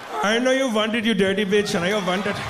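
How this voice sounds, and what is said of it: Put-on East Indian accent. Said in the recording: “East Indian accent”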